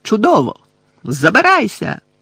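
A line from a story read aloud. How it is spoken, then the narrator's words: Shouted. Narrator (Ukrainian): закричав Гаррі на порожню раму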